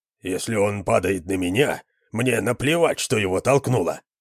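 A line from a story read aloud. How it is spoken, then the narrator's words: Muttering. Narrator (Russian): пробормотал кто-то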